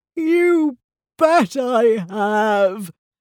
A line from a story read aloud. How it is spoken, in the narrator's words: moaned Big Bad Bitosaurus